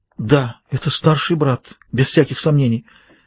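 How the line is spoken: Choked, shuddering woman's voice. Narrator (Russian): Женщина в платье, содрогнувшись сдавленным голосом, сказала

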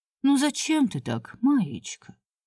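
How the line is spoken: Gentle murmuring. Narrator (Russian): ласково прожурчала старший менеджер

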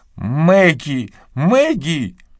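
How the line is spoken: Exclamation. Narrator (Russian): воскликнула миссис Талливер

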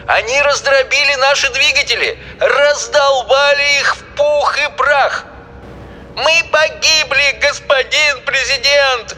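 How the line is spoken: Wailing, screaming. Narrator (Russian): вопил Шастер

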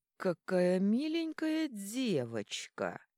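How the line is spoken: Nasal voice from nearby. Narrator (Russian): гнусавый голос, что донесся из боковой ниши совсем рядом

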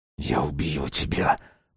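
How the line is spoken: Hissed. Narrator (Russian): прошипел Руслан

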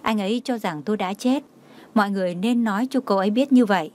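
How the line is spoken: Gentle deep quiet voice. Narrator (Vietnamese): Đường Chí Long hiền hòa sâu kín nói

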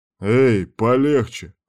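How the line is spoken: Growled. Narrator (Russian): рыкнул Кирк

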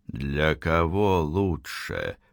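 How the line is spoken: Man through gritted teeth. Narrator (Russian): процедил мужчина

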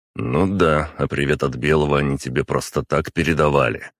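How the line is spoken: Snorting. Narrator (Russian): хмыкнул

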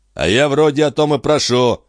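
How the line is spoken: Snapping retort. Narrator (Russian): огрызнулся Диодонат

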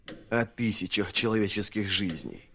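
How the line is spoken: Hiss. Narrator (Russian): прошипел Вест

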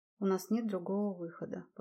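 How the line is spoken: Repeated, heavy sigh. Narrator (Russian): повторил Дзивонский и тяжело вздохнул

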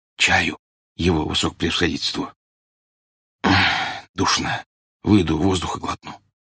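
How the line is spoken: Whisper. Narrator (Russian): шепотом сказал

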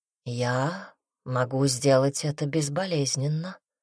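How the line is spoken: Soft. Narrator (Russian): мягко сказала Никс

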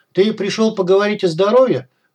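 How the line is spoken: Shouted, cat. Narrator (Russian): крикнул кот

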